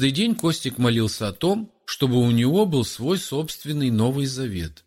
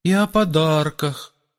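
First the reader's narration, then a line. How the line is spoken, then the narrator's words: Timid request. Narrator (Russian): робко попросил кто-то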